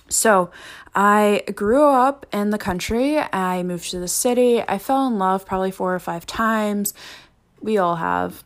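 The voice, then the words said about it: Ohio American accent. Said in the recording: “I am a Ohio native from the US of A. If you can't tell from the accent, not a fancy Australian here”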